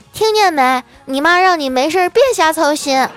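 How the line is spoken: Girl yelling. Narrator (Chinese): 小妮子…冲我嫂子嚷嚷

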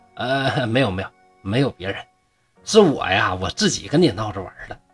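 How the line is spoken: Laughing. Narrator (Chinese): 商生就笑着说

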